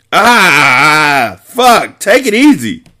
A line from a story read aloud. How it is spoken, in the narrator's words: shouted in pain